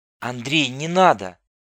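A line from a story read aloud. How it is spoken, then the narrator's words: Pleading. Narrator (Russian): взмолилась Татьяна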